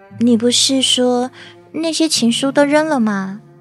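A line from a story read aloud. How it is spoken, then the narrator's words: Whisper. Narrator (Chinese): 沈谦 轻声耳语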